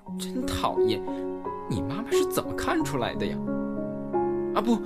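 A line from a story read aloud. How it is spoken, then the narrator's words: Coy, petulant voice. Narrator (Chinese): 兰西……声音有些娇嗔的说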